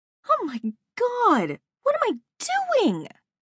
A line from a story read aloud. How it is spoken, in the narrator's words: I cried